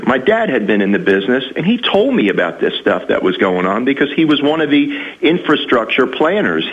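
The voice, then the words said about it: New York Yankee accent. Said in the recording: “You probably hear from my accent, too. I'm a Yankee. I lived up in New York City most of my life”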